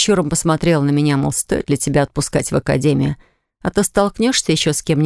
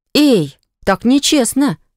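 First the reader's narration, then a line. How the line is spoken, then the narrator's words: Exclamation. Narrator (Russian): воскликнула я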